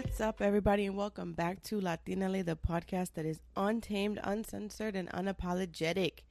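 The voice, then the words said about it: Nasal, congested voice. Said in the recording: “I sound nasally. ... I think I'm getting a little cold.”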